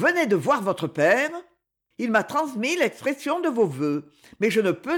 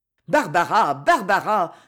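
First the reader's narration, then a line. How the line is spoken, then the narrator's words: Exclaiming. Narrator (French): s'écrie M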